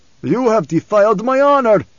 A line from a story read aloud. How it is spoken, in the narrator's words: Stilgar cried